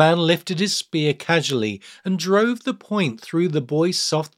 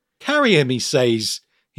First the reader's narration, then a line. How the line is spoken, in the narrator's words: muttered, chuckling